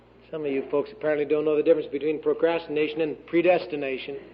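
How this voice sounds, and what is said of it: Southern accent. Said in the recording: “my southern accent”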